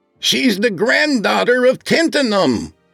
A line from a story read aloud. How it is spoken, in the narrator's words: he shouted through the door